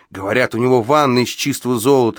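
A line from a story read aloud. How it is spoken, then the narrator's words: Excited exclamation. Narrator (Russian): воскликнул один из грабителей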